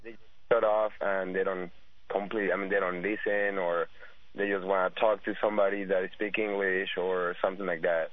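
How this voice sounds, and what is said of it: Non-native English accent. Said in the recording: “you have an accent, but I understand you very clearly. You speak English very well.”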